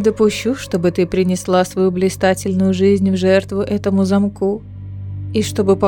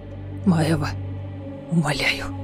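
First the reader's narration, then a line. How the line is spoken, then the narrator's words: Whispering. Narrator (Russian): прошептал Фенрис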